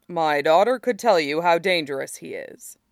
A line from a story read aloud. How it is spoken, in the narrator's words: Hakoda said grimly